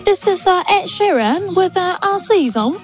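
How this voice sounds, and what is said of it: Put-on British accent. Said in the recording (Danish): “sige sammen med britisk accent”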